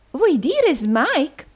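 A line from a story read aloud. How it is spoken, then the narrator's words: Exclaiming. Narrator (Italian): esclamò la signorina Squeers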